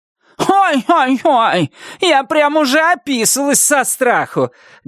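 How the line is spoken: Loud mocking shout. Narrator (Russian): громко крикнула Вильма ей вслед

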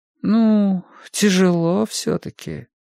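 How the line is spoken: Sleepy drawling mother. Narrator (Russian): сонно протянула мать

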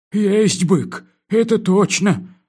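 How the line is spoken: Glum admission. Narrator (Russian): уныло признался комендант

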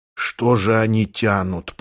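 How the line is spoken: Moaning. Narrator (Russian): простонал Рудольф

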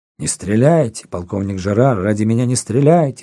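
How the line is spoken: Woman exclaiming. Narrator (Russian): воскликнула она

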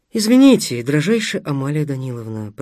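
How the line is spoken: Mumbled. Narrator (Russian): пробормотал Стас

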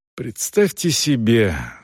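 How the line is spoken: Sigh. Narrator (Russian): вздохнул Селдон

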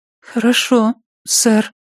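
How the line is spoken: Timid, forced-out reply. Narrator (Russian): она робко выдавила

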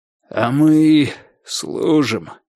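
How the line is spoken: Hoarse, broken by coughs. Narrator (Russian): хрипло выговорил он, покашливая почти после каждого слова

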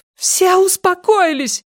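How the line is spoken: Shouting. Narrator (Russian): кричала Силья

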